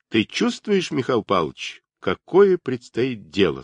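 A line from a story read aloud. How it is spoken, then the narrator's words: Plain. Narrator (Russian): сказал Даватор Шубину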